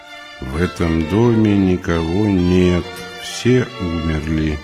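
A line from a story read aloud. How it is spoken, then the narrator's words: Strange quiet voice, lips still. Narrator (Russian): Не двигая губами, она произнесла странным тихим голосом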